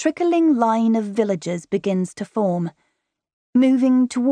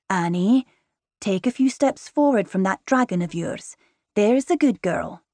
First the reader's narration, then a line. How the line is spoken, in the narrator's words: quietly to me, he adds